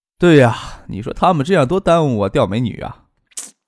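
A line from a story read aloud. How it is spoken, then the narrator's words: Laughing. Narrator (Chinese): 何贤笑着说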